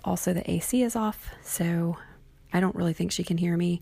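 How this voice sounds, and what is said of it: Quiet, hushed speaking voice. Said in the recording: “in my quiet voice”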